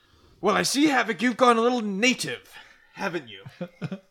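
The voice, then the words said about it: Put-on British accent. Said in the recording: “Why does he have a British accent?”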